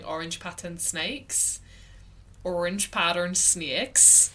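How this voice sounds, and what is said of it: Put-on Irish accent. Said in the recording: “The only way I can do an Irish accent is by saying ... That is so good. Wow.”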